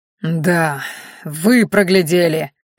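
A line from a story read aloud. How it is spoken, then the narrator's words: Hateful hiss. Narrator (Russian): с ненавистью прошипел Мелим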